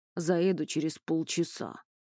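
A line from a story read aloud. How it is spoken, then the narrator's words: Gruff mutter. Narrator (Russian): буркнул Петр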